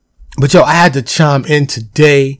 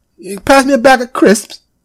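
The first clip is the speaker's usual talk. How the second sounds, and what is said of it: Mock British accent. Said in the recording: “crisps, as they say, across the pond ... That was my impression.”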